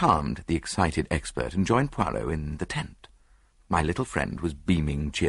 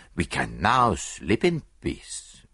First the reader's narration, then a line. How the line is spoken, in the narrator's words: he declared happily